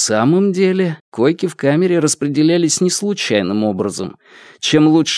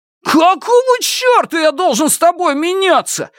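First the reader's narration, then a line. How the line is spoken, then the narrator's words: Roar. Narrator (Russian): взревел Шунь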